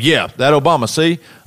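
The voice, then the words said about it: Put-on Southern accent. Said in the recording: “A southern accent.”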